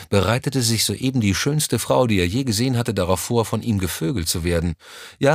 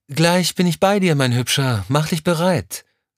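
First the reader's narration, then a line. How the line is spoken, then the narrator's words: Called from another room. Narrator (German): rief es aus dem Badezimmer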